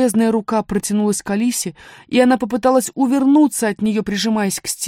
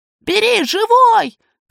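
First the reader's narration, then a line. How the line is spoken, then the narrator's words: Robot shouting close to ear. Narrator (Russian): крикнул генерал-робот над самым ее ухом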